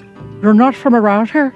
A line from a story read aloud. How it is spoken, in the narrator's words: finally mumbled